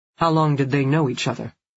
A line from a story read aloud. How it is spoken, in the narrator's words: Keynes asked Larissa